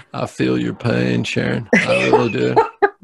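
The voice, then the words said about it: Imitates another person's voice. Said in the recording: “doing a Bill Clinton impersonation ... I could hear his voice”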